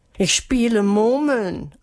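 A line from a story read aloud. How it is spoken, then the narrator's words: Pitiful voice. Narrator (German): antwortete Melissa mit kläglicher Stimme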